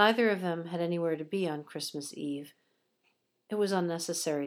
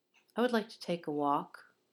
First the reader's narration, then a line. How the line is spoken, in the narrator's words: Severus said quietly